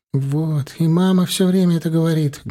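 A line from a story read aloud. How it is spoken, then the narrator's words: Sad. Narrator (Russian): грустно сказал он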